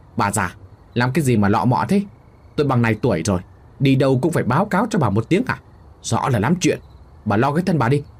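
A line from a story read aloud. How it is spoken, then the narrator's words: Irritable snapping. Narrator (Vietnamese): Thằng Kha ngồi phịch xuống bộ bàn ghế rồi gắt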